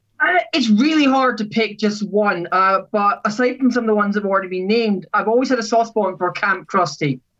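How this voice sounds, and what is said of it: Scottish accent. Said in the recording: “Scotland, right? ... As you can tell, possibly by your accent a little bit. ... My accent does slightly give it away”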